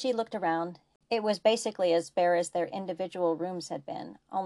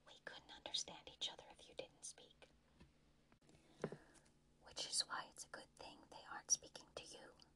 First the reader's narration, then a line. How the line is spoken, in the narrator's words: Malcolm breathed back